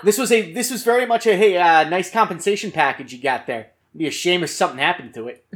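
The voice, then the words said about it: Put-on New Jersey accent. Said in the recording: “Nice Jersey accent.”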